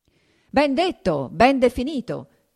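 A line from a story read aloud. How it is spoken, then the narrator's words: Diners shouting in unison. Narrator (Italian): gridarono a una voce i commensali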